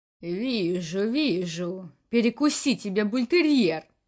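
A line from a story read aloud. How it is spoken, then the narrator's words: Grumbling. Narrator (Russian): Продолжил ворчать Бакс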